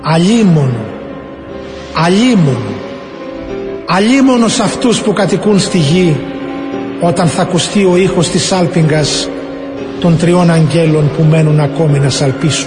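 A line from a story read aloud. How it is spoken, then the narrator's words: Great eagle, loud voice. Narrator (Greek): έναν μεγάλο αετό να λέει με δυνατή φωνή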